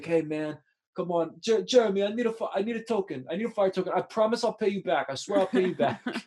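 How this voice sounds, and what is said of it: Imitates another person's voice. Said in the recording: “I love your Tony impression.”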